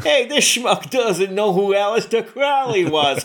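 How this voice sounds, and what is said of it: Put-on New York accent. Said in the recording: “affected a New York accent.”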